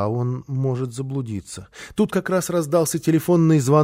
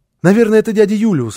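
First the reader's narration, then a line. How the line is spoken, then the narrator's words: Child's excited exclamation. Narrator (Russian): воскликнул малыш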